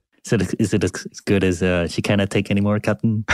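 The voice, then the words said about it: Scottish accent impression, Scotty from Star Trek. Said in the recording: “your Scottish accent is ... rate ... Scottish accent”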